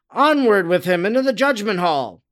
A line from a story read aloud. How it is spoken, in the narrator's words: they cried out to the executioners